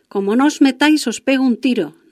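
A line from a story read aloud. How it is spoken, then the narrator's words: Plain. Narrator (Spanish): nos dijo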